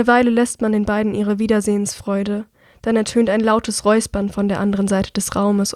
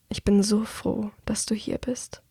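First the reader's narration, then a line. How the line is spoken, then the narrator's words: Murmured. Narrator (German): murmelt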